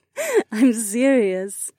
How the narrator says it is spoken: she giggled

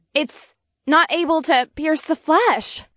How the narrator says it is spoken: she gasped

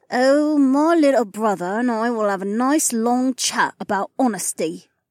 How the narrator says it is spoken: Anastasia said through gritted teeth

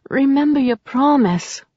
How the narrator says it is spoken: she half-moaned, her body on fire

